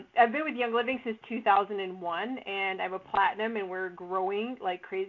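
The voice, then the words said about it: Slightly hoarse voice. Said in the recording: “I must sound a little hoarse”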